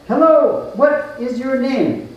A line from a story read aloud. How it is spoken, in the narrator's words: A familiar voice called out